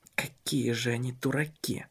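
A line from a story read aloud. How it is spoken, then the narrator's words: Whisper. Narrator (Russian): шептал он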